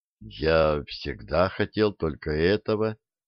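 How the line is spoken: Quiet. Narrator (Russian): сказал Сергей тихо

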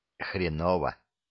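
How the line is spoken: Whispered. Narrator (Russian): Также шепотом Коля отзывается

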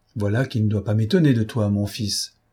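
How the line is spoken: Calm reply. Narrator (French): répliqua le père d'une voix tranquille

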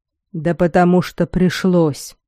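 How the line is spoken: Lifeless voice. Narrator (Russian): безжизненным голосом сказал Малкольм

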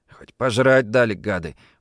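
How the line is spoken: Grumbled with mouth full. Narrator (Russian): буркнул Саймон, запихивая в рот последний кусок пирога и запивая его молоком из жестяной кружки

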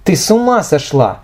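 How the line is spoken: Exclamation. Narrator (Russian): воскликнула Ира

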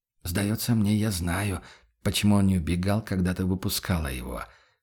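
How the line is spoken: Almost whispered summary. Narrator (Russian): почти шепотом подытожил Курт

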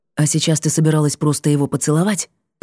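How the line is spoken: Hissing whisper. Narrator (Russian): Плеснул он мне в лицо свистящим шепотом

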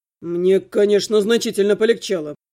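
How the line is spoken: Muttered. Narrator (Russian): пробормотал Трохим

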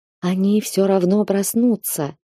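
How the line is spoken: Soft whisper like waves. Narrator (Russian): донесся шепот, напоминающий шелест волн

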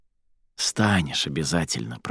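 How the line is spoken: Whispered. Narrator (Russian): прошептала Аради

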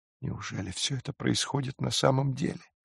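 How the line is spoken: Whisper. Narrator (Russian): прошептала Джулия

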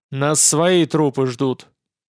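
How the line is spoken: Snorting. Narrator (Russian): хмыкнул Мозалевский

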